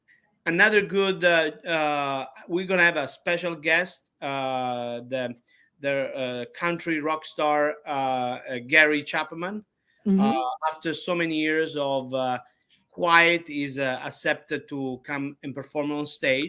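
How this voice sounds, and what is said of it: Speaks with a noticeable accent. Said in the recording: “he take a fun of me for my accent. But I believe I have a very cute accent.”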